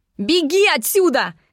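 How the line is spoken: Shouted. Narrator (Russian): крикнула я

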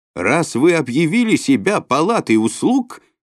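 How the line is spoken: Mule yelling. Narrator (Russian): заорал лошак

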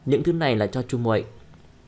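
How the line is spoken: Cold. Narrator (Vietnamese): lạnh lùng nói

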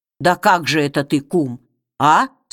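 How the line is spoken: Plain. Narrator (Russian): спросил Чернобай

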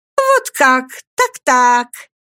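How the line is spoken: Exclaimed, same intonation. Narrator (Russian): воскликнула она снова совершенно с той же интонацией, как и в первый раз

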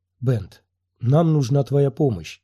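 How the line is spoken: Soft gentle speech. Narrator (Russian): мягко проговорил Квай-Гон

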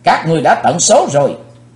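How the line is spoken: Young man's thunderous shout. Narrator (Vietnamese): chàng thiếu hiệp tiếng quát cuồn cuộn bốn bề như lôi điện

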